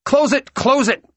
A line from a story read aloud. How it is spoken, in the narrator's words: he spluttered down to her